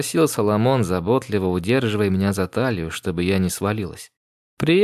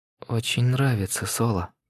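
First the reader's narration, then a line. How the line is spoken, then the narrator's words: Breathless, thrilled whisper. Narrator (Russian): прошептала я, обмирая от такой высоты и от его прикосновений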